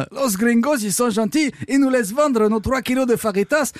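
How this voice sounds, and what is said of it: Mock Spanish accent. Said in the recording (French): “cet accent, c'est de l'appropriation culturelle. Mais je m'en fous, j'ai un ancêtre conquistador.”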